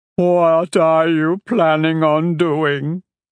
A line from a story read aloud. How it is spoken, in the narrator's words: Cheeks whimpered